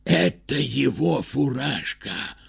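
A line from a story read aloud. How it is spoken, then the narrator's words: Group whisper. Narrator (Russian): прошептали они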